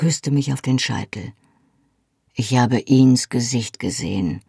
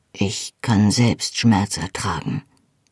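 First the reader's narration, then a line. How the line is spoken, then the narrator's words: Said softly. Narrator (German): sagte er leise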